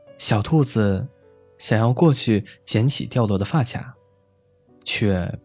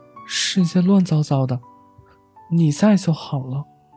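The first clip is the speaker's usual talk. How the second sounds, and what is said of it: Quiet, soft-spoken line. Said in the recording (Chinese): “小声”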